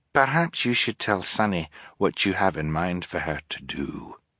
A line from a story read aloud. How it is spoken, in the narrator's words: Fiona said gently